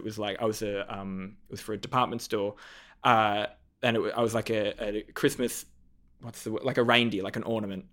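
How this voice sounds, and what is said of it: Speaks with a lisp. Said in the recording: “I've got a lisp”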